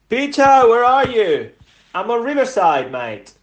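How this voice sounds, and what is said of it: Attempted Cockney London accent. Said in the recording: “That's his Cockney accent. That's his attempt to be a London boy.”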